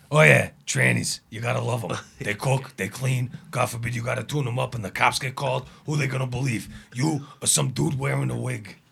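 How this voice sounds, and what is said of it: Impression of Joey Diaz. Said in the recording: “a good impression, though ... Joey Diaz”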